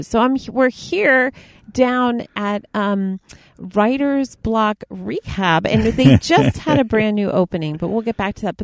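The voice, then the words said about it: Newscaster voice. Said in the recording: “doing a voice? Well, I have a great newscast ... You do an excellent newscast”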